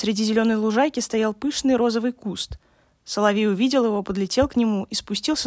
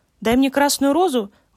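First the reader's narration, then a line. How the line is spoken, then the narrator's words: Exclaiming. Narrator (Russian): воскликнул он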